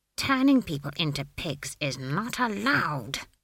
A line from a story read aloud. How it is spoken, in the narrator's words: she hissed